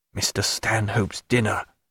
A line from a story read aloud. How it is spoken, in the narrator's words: said Stephen in an undertone